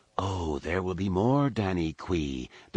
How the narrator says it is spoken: Dagara whispered into her ear

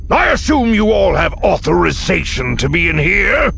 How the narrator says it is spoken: he growled

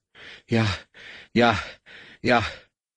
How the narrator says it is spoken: the Rodian gasped

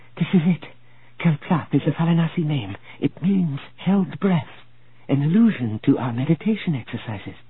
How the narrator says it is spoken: she whispered

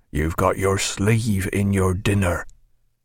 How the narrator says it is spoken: murmured a familiar voice in Stephen's ear

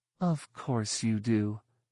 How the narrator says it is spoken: Mara said, her tone soothing, a millimeter short of condescending

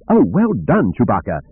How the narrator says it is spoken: cried

